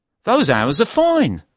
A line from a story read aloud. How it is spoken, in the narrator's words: I said happily